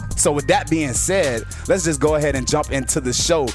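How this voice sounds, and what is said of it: Energetic, hyped-up delivery. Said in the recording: “as you can hear in my voice, I do have a lot of hype behind it, a lot of tension”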